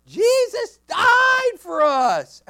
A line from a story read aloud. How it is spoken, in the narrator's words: the kids are just yelling out